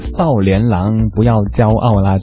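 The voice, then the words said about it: Heavy southern Chinese accent. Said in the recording (Chinese): “带着浓重的这个南方口音的”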